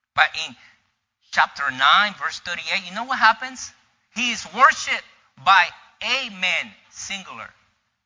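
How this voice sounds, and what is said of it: Speaks with a noticeable accent. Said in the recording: “Because sometimes my accent.”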